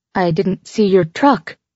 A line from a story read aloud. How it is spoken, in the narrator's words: said nervously